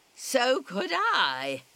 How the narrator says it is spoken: I shout back

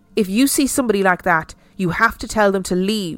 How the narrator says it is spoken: she told me sternly

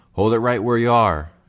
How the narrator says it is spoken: Fred Wishingham's voice shouted

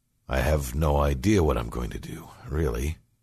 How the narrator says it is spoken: he sighed

